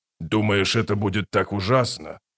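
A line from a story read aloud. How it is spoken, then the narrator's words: Snort. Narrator (Russian): Рейк фыркнул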